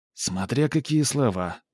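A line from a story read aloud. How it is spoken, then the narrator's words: Sigh. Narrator (Russian): вздохнул Флип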